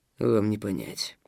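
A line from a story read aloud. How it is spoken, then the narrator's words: Muffled hollow voice. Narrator (Russian): тем же глухим голосом ответил Стас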